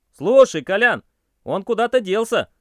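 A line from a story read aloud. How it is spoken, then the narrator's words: Somewhat puzzled shout. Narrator (Russian): крикнул я несколько озадаченно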